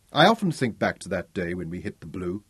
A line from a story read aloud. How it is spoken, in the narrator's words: Jordan said